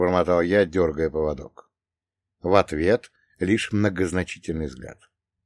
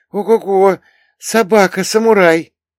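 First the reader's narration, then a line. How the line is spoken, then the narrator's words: Excited exclamation. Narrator (Russian): воскликнула восторженно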